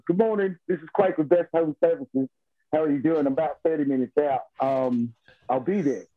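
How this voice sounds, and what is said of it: Put-on British accent. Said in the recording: “I don't want to do the accent because I'm with British folks ... my dad used to live in London ... you have to do that voice”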